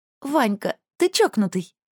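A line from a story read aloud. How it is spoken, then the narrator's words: Giggling. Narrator (Russian): хихикнула Анька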